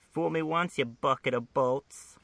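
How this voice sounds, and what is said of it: Harley Quinn character voice. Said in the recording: “my Harley impression”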